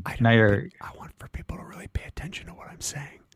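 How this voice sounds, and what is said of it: Whispered speech. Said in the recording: “you're whispering ... your voice is sticking out more because it's whispered”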